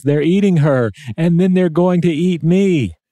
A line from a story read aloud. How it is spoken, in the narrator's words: the guy uh, yells